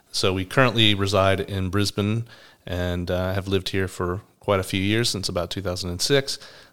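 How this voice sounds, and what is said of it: American accent from Atlanta, Georgia. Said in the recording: “I'm from Atlanta, Georgia. You might notice I have a different accent to Bron. She's from Murwillumbah in New South Wales in Australia”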